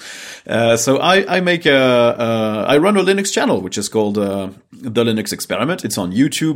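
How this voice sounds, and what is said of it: French-accented English. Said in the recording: “I'm French, which might explain the weird accent.”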